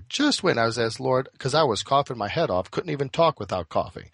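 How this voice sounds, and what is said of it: Slightly raspy, hoarse voice. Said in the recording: “my voice sounds a little raspy ... sick as a dog ... coughing all day”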